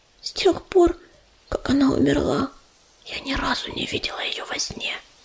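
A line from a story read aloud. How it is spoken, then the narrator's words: Whisper. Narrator (Russian): прошептала Листвичка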